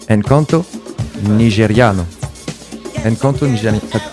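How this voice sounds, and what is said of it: Put-on Italian accent. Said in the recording (French): “J'ai un peu pris un accent italien”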